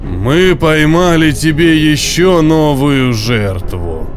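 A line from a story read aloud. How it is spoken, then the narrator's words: Monster's deep bass. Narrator (Russian): пробасил монстр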